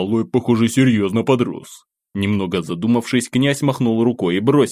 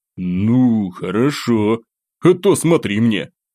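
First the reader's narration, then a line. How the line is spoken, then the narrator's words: Booming bass, teasing. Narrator (Russian): Продолжая потешаться над младшим братом, Евгений Константинович раскатистым басом добавил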